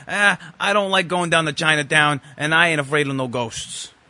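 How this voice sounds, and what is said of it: Bad Brooklyn accent, Dan Aykroyd. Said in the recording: “Dan Aykroyd, in the worst Brooklyn accent I've ever heard anyone do an impression of”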